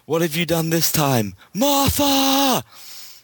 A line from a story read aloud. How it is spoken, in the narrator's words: Batman screaming